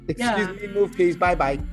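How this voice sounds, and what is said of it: Childlike toddler voice. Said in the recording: “talking like a fucking toddler ... like I'm two”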